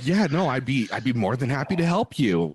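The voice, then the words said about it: Polite customer service voice. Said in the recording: “your customer service voice”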